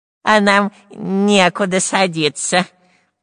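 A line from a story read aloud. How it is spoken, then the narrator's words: Nasal voice. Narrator (Russian): прогнусавил шпион Дырка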